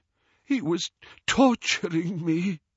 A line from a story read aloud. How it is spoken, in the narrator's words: he gasped